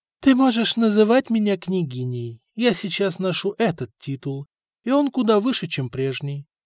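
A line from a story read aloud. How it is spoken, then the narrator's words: Calm reply. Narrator (Russian): спокойно ответила ему Мария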